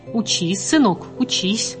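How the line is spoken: Plain. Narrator (Russian): сказала мать

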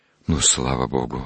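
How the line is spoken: Relieved sigh. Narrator (Russian): облегченно вздохнул отец Савелий

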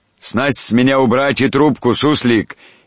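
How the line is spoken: Shouting admiral. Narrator (Russian): не говорил, а кричал адмирал по привычке моряков, командовавших на палубе

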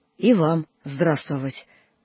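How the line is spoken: Slow, bewildered reply. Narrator (Russian): человек отвечал медленно, словно в растерянности

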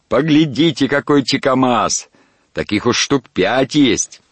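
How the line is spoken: Excited shout. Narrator (Russian): После каждой удачной ловли он кричал

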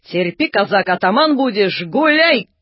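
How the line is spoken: Shout. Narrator (Russian): Как крикнет англичанин

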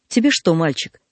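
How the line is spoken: Dry question. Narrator (Russian): спросил сухо

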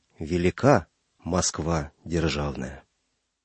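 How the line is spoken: Solemn. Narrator (Russian): Звягин торжественно сказал

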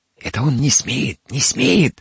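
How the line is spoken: Whispering. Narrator (Russian): зашептала Федосия

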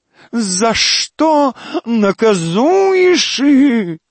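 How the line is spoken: Howling. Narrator (Russian): взвыл декадент

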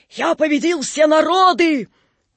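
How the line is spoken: Hissing shout. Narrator (Russian): крикнул шипящим голосом

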